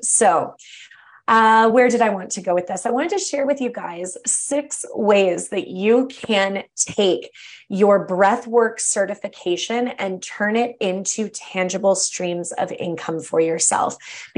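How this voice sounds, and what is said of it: Slightly tired, off-sounding voice. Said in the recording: “my breath or my voice sounds a little off ... my voice is a little tired”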